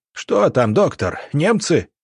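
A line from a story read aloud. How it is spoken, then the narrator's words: Wounded soldier shouting. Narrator (Russian): крикнул солдат с перевязанной рукой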